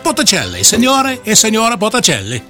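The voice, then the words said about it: Fake Italian accent. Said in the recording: “that fake Italian accent”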